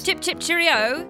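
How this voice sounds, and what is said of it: Put-on British voice. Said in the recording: “can you do a British voice?”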